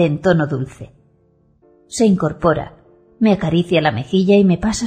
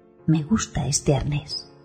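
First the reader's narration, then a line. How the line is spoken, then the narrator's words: Whisper. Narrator (Spanish): susurra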